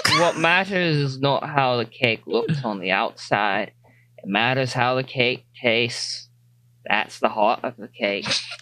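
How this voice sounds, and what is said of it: Put-on accent. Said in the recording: “he's doing an accent now”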